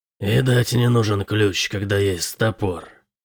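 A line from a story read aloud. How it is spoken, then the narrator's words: Hoarse rasp. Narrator (Russian): прохрипел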